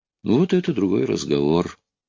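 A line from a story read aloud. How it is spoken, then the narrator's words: Calm remark. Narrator (Russian): спокойно заметил Стив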